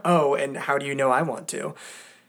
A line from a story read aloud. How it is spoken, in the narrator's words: With a chuckle, he says